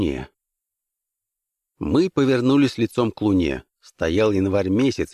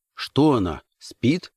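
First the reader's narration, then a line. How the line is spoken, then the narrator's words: Plain. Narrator (Russian): спросил я черта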